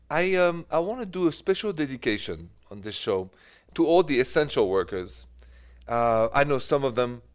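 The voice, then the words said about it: French accent. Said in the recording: “The accent is French”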